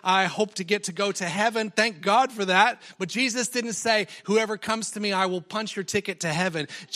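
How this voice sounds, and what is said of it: American accent with a twang. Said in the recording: “twang in my voice that you hear is not Tamworth country twang ... still have the accent, still have the American accent”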